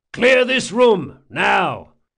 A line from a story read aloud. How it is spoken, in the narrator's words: bellowed